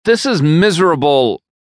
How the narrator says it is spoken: Haley whines with her head tucked between her knees

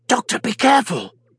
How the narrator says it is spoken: she hissed in warning

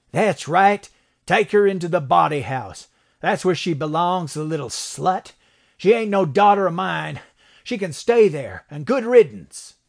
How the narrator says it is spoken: Kendrick suddenly yelled

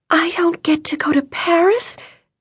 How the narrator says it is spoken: Vivian whispered

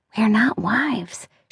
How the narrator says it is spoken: muttered with her face away from the camera

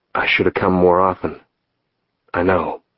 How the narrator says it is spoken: he whispered

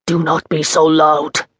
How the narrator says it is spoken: he hissed

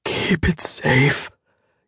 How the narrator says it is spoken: he gasped

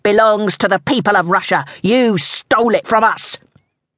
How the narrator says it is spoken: one of the hoods growled

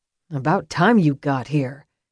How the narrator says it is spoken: Calvin muttered, even as he struck

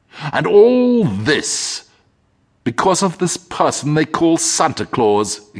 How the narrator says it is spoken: exclaimed the demon of envy

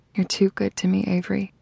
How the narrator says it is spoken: said quietly

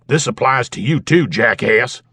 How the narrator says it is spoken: He barked at the older man

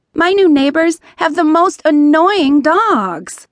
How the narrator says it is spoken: Emma whined

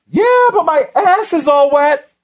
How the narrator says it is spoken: she yelled back

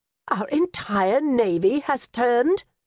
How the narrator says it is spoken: Her voice rose

